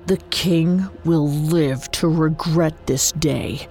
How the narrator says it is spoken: Juan growled

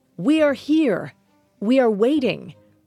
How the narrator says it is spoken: Romanus yelled into the abyss

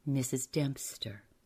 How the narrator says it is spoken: said Malcolmson, gravely

